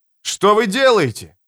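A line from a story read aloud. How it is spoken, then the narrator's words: Shouting. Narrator (Russian): кричал он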